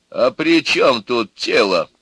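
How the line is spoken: Stern question. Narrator (Russian): строго спросил жених

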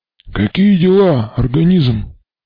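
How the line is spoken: Hoarse croak. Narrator (Russian): прохрипел во мраке Мармелад

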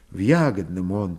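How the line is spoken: Quiet. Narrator (Russian): тихо ответила

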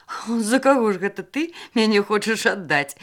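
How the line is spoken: Laughing. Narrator (Belarusian): засмяяўся Вася

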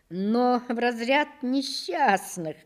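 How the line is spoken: Laughing. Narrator (Russian): сказал я, смеясь

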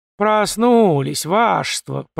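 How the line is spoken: Drawling imitation. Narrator (Russian): протянула она на манер Фомы

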